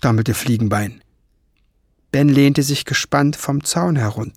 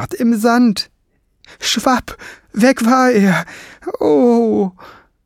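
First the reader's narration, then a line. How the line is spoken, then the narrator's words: Hoarse voice. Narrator (German): fuhr mit heiserer Stimme fort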